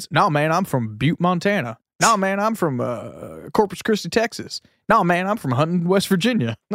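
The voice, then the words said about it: Put-on American redneck accent. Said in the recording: “talks about the redneck accent that's common everywhere in the world or everywhere in the States ... just a common accent”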